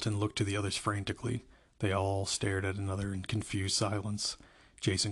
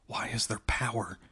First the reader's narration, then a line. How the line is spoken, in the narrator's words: Jessica whispered